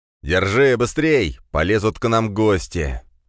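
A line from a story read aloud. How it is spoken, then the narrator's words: Shouting. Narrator (Russian): закричал Черепов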